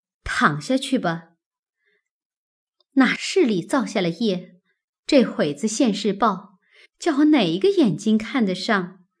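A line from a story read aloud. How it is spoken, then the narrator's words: Scoffing laugh. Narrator (Chinese): 一面说，一面嗤的一声又笑了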